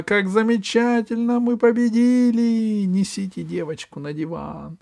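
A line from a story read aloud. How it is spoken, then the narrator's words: Shouting. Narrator (Russian): закричала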